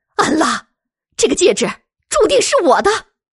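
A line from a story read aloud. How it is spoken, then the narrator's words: Shouting. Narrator (Chinese): 神人大姐 大喊道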